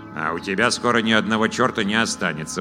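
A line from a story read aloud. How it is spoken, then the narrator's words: Grumbling. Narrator (Russian): проворчал Вур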